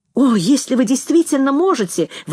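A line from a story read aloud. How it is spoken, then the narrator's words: Exclaimed by couple. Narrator (Russian): воскликнули муж и жена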